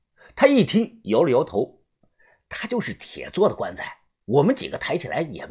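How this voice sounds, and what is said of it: Usual voice. Nothing is said of it.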